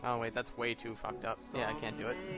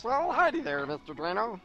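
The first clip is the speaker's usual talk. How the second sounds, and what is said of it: Attempted Kermit the Frog voice. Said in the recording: “do the Kermit voice ... That was really close to... That one Doug character ... Skeeter's little brother”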